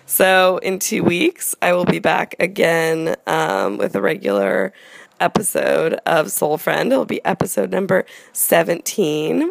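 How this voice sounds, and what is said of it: Congested voice from a cold. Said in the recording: “I also have a cold right now, as you can hear in my voice.”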